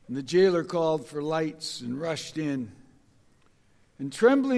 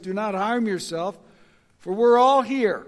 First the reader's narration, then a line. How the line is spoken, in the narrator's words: Paul cried out with a loud voice